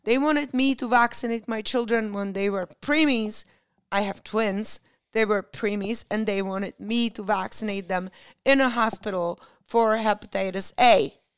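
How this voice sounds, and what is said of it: Strained, hoarse voice giving out. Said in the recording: “I'm losing my voice, as usual.”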